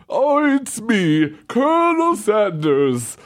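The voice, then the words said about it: Put-on mascot character voice. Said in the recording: “Colonel Sanders. Because then you get to do a phone accent.”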